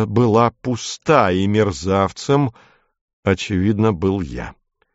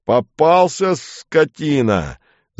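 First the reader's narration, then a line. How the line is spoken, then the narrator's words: Drunken yell. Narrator (Russian): заорал пьяный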